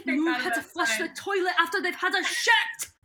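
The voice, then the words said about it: Vaguely Scottish accent, yelling. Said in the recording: “it's even got the accent. It's perfect. ... vaguely Scottish yelling”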